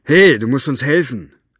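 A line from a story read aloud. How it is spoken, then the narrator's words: Call. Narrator (German): rief Zauberzunge ihm zu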